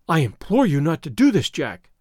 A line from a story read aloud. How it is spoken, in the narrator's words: she cried